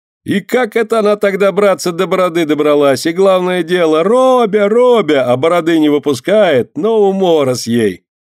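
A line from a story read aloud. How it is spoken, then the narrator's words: Guffawing. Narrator (Russian): захохотал другой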